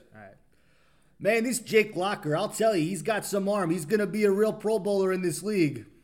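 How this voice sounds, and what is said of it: Imitates another person's voice. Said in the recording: “my John Gruden impression”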